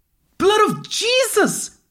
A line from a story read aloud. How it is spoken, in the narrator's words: she screamed